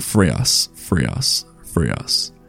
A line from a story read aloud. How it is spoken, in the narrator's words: a whisper at first, but it grew louder, calling